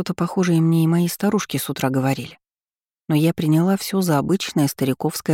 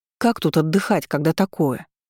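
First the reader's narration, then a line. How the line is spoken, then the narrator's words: Indignant exclamation. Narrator (Russian): возмущенно воскликнула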